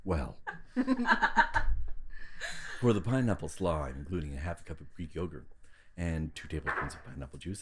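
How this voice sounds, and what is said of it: Sultry, seductive voice. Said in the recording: “in a sultry voice”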